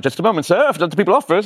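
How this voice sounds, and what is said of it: Put-on English accent. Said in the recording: “I'm thinking in an English accent”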